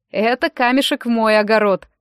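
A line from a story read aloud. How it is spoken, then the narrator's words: Laughing. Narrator (Russian): рассмеявшись, сказал он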